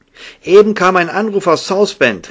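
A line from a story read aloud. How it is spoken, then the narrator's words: Called out. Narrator (German): rief Ike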